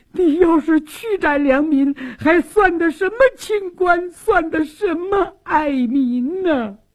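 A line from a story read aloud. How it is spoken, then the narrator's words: Tearful pleading. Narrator (Chinese): 苏旭娟也哭诉说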